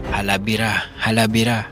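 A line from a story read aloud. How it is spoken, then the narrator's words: Young men shouting. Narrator (Tagalog): sigaw ng mga animoy negrong binatilyo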